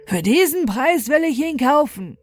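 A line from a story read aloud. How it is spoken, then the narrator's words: Old man exclaiming. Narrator (German): ein alter Mann vom bösen Aussehen rief aus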